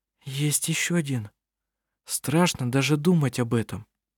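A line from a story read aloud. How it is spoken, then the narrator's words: Quiet speech. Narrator (Russian): Анна-Мария тихо проговорила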